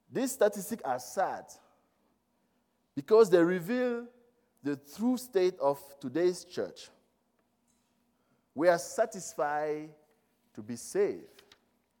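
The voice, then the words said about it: French-speaker accent in English. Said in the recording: “I don't know if my English, I'm coming from a French country, speaking country. Sometimes you will have a hard time hearing, understanding some of the words.”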